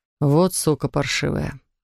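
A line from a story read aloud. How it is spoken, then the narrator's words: Muttering. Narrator (Russian): пробормотал Матье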